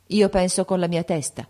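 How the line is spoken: Son's cold reply. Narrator (Italian): rispondeva freddamente il figlio

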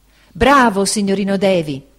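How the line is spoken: Ecstatic exclamation. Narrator (Italian): esclamò Cam, estasiato

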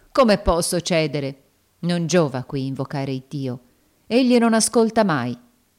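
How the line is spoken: Firm woman's voice. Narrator (Italian): disse la donna con voce ferma

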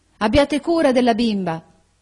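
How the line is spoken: Shouted. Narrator (Italian): gridò ella al conduttore

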